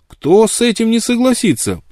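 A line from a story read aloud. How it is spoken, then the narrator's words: Ardent exclamation. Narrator (Russian): пылко воскликнул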